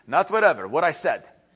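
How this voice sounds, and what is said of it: Imitated Ukrainian accent. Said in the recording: “that little Ukrainian accent that my parents had that I can't replicate, but they had the accent. ... I could try, but I won't do it justice.”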